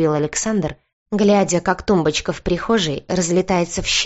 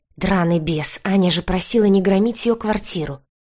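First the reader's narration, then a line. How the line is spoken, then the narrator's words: Long-suffering sigh. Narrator (Russian): мученически вздохнул Нечаев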